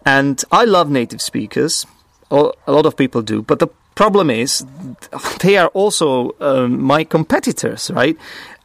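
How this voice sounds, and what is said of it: Czech-accented non-native English. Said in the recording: “whenever people hear my accent, I am often judged for not having a perfect native speaker accent ... I'm obviously Czech. English is not my first language.”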